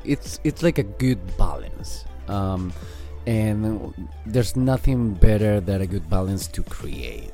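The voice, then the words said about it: Speaks with an accent. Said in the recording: “if I can say that in my accent”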